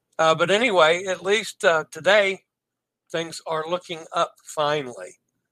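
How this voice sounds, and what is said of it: Voice not yet back to normal. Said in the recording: “You can still tell my voice is not back to normal yet, but we're getting there. So it's definitely an improvement over what it was all weekend.”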